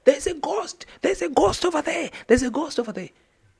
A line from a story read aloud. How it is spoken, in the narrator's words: somebody just screamed